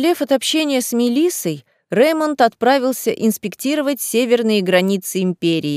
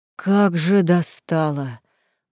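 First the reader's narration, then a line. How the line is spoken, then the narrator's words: Inner growl. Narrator (Russian): мысленно прорычал Реймонд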